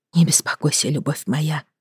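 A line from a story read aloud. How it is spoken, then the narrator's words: Tender whisper. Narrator (Russian): зашептала ему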